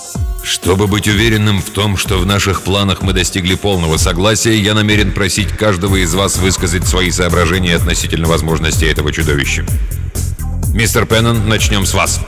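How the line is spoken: Deep, firm, clear voice. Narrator (Russian): Своим глубоким твердым голосом он четко произнес

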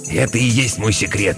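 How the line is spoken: Hoarse whisper. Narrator (Russian): хрипло зашептал Зигги

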